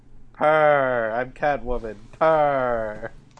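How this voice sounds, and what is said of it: Cat purring impression. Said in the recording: “my cat impression”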